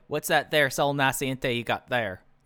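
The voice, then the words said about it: Weak comical Southern Ohio accent. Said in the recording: “that's what he sounded like to me, and that's a very weak attempt at a comical Southern Ohio accent”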